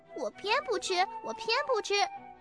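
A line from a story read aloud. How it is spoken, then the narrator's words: Child shouting, stamping. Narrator (Chinese): 小丽丽用脚蹬着地叫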